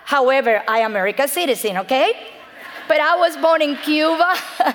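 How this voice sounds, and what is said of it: Cuban accent in English. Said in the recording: “I am from Cuba ... You only have to hear my accent and know that I am not from America”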